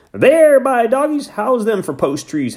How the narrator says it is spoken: Hank shouted

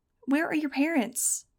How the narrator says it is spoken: cried one reporter

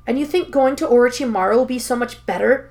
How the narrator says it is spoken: Naruto hisses, though it's obvious that the words have hit too close to home

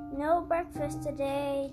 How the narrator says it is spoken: Joe called in a loud voice

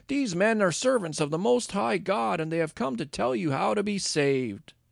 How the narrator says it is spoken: shouting

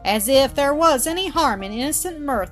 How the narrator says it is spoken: exclaimed Mildred

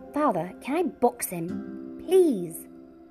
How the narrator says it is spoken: Corin shouted

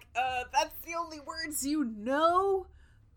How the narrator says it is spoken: they yell back

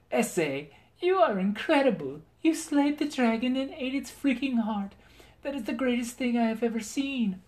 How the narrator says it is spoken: Margaret cried with joy

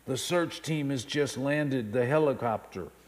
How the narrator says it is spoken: The child answered in a hushed tone

